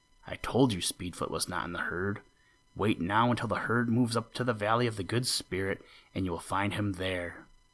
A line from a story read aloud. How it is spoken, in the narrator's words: Tuktu whispered in Aklak's ear